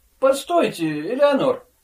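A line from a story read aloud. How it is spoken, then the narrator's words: Exclaimed. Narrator (Russian): воскликнул он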